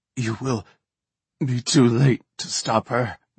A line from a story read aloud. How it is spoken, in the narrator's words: Neva rasped